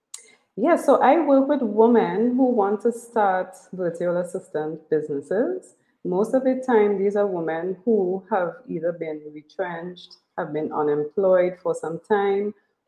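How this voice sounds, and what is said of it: Musical sing-song Caribbean accent. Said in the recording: “I could listen to your accent all day. I love it. It's always been musical to me... We have a sing-song accent.”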